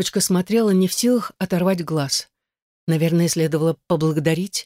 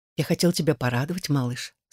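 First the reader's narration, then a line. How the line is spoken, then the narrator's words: Quiet. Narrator (Russian): сказал он тихо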